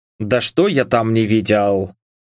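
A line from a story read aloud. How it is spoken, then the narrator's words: Grumbling. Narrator (Russian): проворчал я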